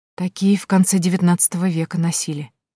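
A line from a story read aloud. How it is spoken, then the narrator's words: Whisper. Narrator (Russian): прошептала Тоня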